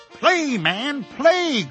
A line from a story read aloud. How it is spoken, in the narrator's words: cried the widow